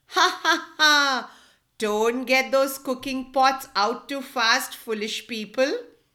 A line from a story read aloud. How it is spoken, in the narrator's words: And laughing, the turtle said